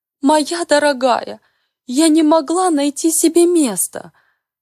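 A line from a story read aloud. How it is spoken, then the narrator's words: Sobbing mournfully. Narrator (Russian): Горестно всхлипывает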